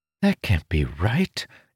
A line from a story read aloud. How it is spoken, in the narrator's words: Ilden whispered